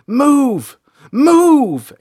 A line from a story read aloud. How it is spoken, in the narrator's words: April shouted